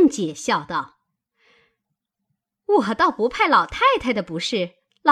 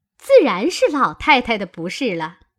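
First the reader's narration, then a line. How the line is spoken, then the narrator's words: Laughing. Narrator (Chinese): 凤姐笑道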